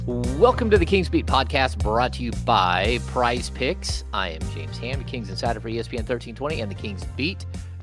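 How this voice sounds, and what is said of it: Hoarse, raspy voice. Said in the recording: “There was a little extra on that one, wasn't there? ... My voice is trashed. ... I got a little rasp. I got a little rasp to it right now.”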